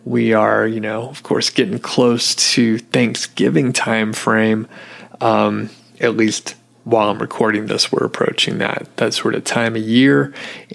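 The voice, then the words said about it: Scratchy, rough, slightly hoarse voice. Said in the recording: “I don't know what is going on with my voice... It sounds like I just woke up after a night of like smoking cigarettes and cigars and like pounding whiskey or something... my voice is getting a little scratchy”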